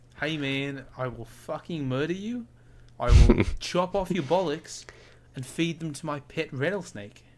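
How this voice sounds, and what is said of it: Poor put-on Australian accent. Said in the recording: “That was not an Australian accent in the slightest. I apologise. ... I love it when you try and do accents.”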